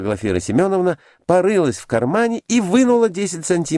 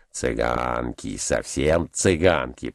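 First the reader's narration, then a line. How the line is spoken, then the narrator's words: Muttered. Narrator (Russian): пробормотал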